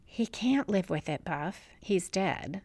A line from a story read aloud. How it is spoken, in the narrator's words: says quietly